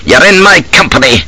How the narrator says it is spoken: he snaps

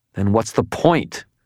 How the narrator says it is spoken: snarled, suddenly furious

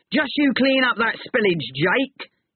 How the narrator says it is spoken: he shouted to a young man

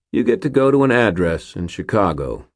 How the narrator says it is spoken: he said

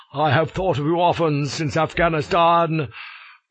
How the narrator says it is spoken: cries he

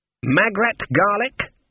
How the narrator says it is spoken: said Granny Weatherwax triumphantly

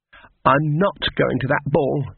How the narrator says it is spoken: she snapped

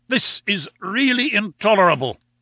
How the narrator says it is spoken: cried

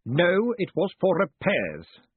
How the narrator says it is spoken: snapped Vetinari

